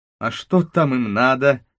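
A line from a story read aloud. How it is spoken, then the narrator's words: Feigned angry voice. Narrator (Russian): спросил я нарочно сердитым голосом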